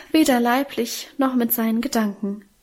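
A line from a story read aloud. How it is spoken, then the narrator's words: Emotional sigh. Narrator (German): seufzte unser Minchen gefühlvoll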